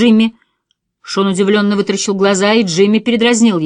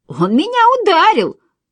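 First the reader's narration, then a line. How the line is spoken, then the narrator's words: Squeaky girlish voice. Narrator (Russian): пропищал Джимми девчачьим голосом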